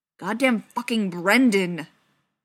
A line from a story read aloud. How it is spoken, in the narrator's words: John growled